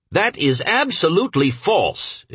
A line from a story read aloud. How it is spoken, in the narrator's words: exclaimed Mr